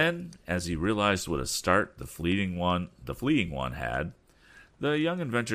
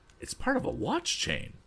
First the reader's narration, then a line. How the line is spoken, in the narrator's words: exclaimed Tom